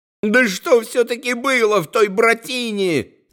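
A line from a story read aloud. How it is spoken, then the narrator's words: Sudden yell. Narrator (Russian): заорал вдруг Зосима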